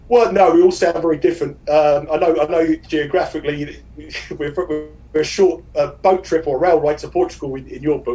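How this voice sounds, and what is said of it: Strong South London accent, fast speech. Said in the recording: “I come from London, obviously, and I have a very strong London accent. I'm from South London, and I talk very fast.”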